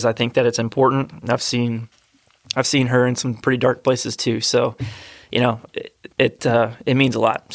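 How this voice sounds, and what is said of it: Emotional voice. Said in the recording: “I'm getting a little emotional.”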